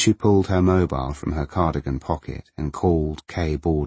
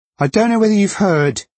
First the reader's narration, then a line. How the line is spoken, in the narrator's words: she shouted over the rushing water